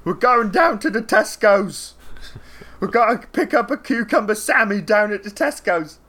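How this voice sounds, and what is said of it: Put-on British chav accent. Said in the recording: “you can even have this accent ... The chavs.”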